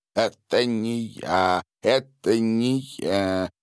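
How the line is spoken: Annoyed mutter. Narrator (Russian): с досадой бормотал Владимир

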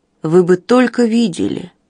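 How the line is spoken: Sleepy mumble. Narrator (Russian): сонно пробормотала Линдси

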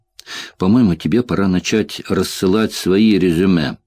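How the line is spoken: Grim joking tone. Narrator (Russian): мрачно пошутил Чет

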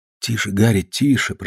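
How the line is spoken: Whispered. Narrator (Russian): прошептал

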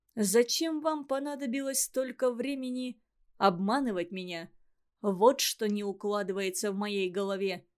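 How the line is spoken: Muffled curt remark. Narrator (Russian): Глухо кинул он

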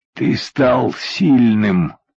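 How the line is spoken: Strained after long pause. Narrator (Russian): После длительной паузы с усилием выдавил из груди Коля

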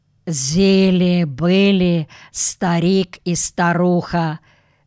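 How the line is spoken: Low lisping whistling voice. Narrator (Russian): начала Машуха особым шепелявым, свистящим, низким голосом

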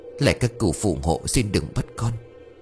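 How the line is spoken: Old woman muttering. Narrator (Vietnamese): Bà miệng lẩm bẩm

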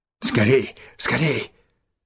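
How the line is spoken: Breathless repeated whisper. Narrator (Russian): то и дело шептал он, задыхаясь

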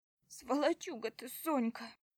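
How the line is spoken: Sobbing. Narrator (Russian): всхлипывает сестра

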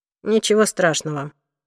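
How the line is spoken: Dry remark. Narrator (Russian): сухо заметил Уилл

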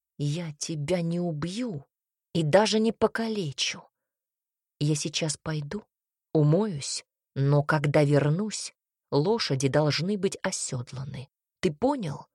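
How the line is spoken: Quiet and menacing. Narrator (Russian): Альберт произнес грозно и тихо

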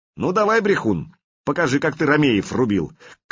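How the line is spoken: Taunting shout. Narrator (Russian): крикнул Олег

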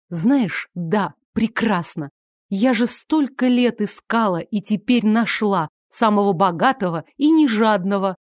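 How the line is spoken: Angry. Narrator (Russian): зло сказала она

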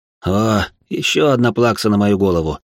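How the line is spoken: Sigh. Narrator (Russian): вздохнул я

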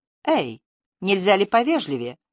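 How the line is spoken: Offended exclamation. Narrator (Russian): обиженно воскликнула Триция

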